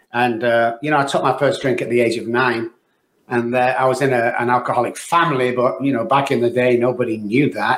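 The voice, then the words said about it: Manchester English accent. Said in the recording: “I was born in Manchester, UK, guys, as you can tell by the accent, just in case you think I was from Texas.”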